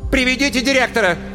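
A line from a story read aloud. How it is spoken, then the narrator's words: Shouted. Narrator (Russian): крикнула Светлана Семеновна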